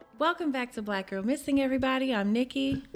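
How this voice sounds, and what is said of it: Put-on polished podcaster voice. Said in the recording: “you don't sound like ... What the hell was that? ... She's got her podcaster voice on. ... That's my podcast voice.”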